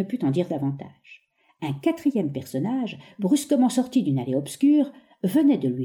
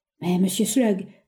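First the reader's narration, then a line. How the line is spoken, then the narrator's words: Stammered. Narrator (French): balbutia l'autre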